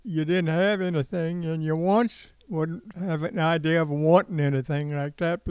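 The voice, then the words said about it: Elderly man, slight southern accent. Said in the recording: “you might detect still a little bit of a southern accent in this 92-year-old's voice”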